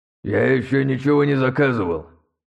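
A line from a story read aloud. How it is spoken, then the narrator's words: Creaky angry older voice. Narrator (Russian): проскрипел сердитый немолодой голос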